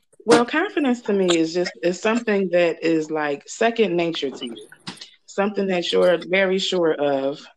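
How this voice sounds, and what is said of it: Hoarse, nearly lost voice. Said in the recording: “I forgot that I lost my voice.”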